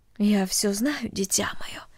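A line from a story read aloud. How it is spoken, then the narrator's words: Mother speaking quietly. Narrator (Russian): тихо сказала мать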